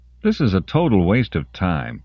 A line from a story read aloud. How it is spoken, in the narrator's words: Colin grumbled on the local frequency